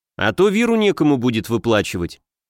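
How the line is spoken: Snorted. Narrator (Russian): хмыкнул

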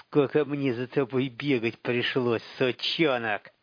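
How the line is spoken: Through gritted teeth. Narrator (Russian): процедил Филин

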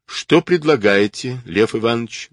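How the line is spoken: Dry question. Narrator (Russian): сухо спросил Бардин

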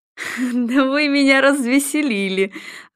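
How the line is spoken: Laughing. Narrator (Russian): Ройтер рассмеялся

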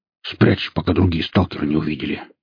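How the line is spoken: Gruff growl. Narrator (Russian): рыкнул ему новый друг, враз утративший благодушное свое настроение

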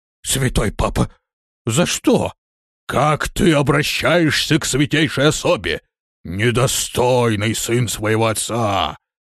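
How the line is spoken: Furious roar. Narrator (Russian): взревел Бурвидус

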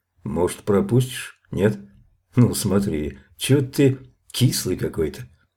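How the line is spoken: Sudden muffled voice. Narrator (Russian): Мишка вдруг сказал глухо

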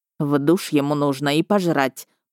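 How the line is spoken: Muttered grumble. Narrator (Russian): проворчал под нос полицейский в форме

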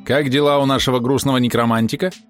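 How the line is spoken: Plain question. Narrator (Russian): спросило зеркало

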